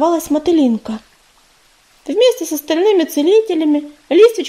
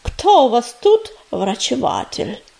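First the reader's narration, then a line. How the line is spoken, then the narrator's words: Creaky cat voice. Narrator (Russian): проскрипел кот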